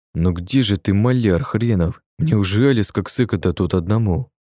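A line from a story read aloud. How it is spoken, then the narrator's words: Whisper. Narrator (Russian): прошептал я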